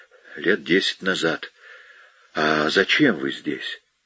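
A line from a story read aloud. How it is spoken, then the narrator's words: Uncertain. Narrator (Russian): Американец неуверенно проговорил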